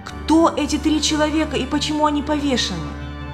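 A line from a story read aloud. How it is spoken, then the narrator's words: Horrified exclamation. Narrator (Russian): Любовь с ужасом воскликнула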